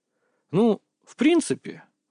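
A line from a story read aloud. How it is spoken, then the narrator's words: Thoughtful drawl. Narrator (Russian): задумчиво протянул я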